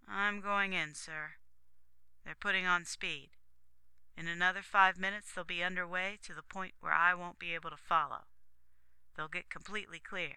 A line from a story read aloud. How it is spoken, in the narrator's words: Don said, letting his voice go very flat